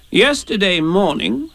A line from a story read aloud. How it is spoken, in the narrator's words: said Rabbit solemnly